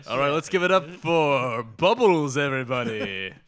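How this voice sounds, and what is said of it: Typical club announcer voice. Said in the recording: “the announcer voice, the let's give it up for Crystal guy was there. He was the typical voice.”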